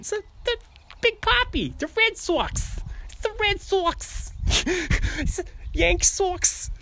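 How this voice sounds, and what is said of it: Put-on Boston accent. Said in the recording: “if you're going to do a Boston accent”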